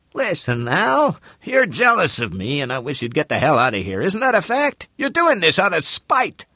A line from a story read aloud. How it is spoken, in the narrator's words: The old man said in a squeaky voice